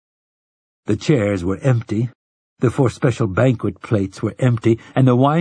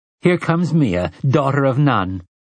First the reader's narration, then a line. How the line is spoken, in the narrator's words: she called gaily to the silent room